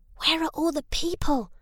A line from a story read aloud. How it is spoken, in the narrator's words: Harry whispered